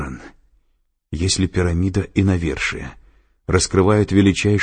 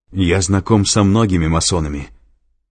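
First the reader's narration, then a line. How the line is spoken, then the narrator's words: Angry. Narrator (Russian): зло проговорил Лэнгдон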